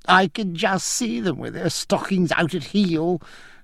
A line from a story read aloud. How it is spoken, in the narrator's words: cried Francis with a coarse whoop